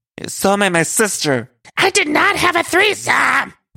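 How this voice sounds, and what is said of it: Loud high-pitched screeching imitation. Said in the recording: “doing that voice she does ... a very loud voice ... this high-pitched screaming that ... doing”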